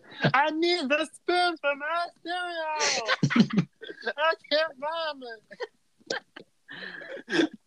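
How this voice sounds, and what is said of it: Imitates another person's voice. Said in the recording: “Great impression.”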